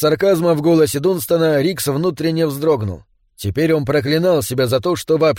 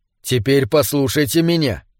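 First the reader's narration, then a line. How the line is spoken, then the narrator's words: Cold announcement. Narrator (Russian): холодно объявил он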